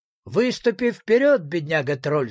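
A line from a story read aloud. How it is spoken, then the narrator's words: Plain. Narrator (Russian): сказал самодержец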